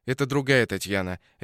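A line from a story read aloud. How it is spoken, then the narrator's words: Sharp. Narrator (Russian): резко сказал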